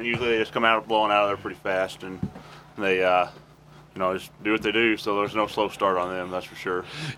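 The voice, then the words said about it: Deep country drawl. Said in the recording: “You got a deep old drawl, that country boy.”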